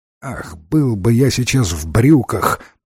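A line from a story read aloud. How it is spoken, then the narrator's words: Muttered. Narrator (Russian): пробормотал Ренсом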